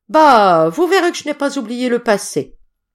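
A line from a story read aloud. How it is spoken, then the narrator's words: Exclaimed. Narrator (French): s'écria Trevor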